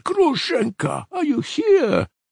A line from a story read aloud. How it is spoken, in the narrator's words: Though he cried that